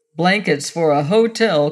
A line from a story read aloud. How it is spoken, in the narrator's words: quoth one of the men, who laughed